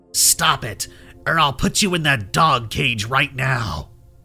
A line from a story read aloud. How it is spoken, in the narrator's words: hissed